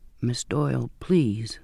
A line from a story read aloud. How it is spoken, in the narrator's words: he said softly